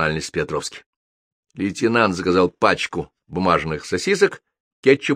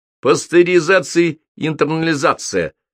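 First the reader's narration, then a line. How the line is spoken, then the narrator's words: Brisk blurt. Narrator (Russian): бодро выпалил Почишин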